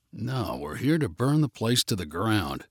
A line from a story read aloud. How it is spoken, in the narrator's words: muttered under his breath